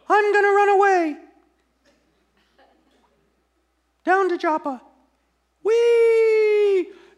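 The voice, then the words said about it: Silly character voice for Jonah. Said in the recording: “Pardon my voices”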